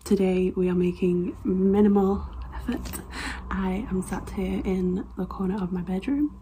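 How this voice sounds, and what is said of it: Slightly raspy, hoarse voice. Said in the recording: “I am currently recovering from COVID, hence my voice might be a little raspy”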